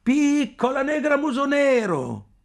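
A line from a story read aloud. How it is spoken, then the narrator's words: Shouting. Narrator (Italian): qualcuno che gridava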